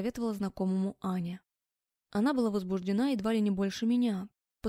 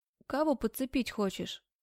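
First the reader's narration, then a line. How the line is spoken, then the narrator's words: Chuckle. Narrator (Russian): хохотнул Жека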